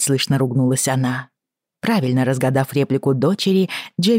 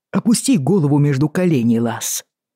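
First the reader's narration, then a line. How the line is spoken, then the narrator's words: Fierce, through gritted teeth. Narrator (Russian): она процедила сквозь зубы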